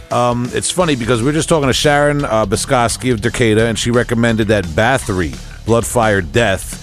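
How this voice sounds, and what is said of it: Long Island accent. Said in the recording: “butchered that a little bit with the Long Island accent”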